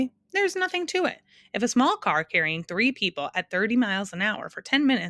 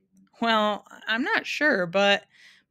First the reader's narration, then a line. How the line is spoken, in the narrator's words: Milo stammered after several minutes of frantic figuring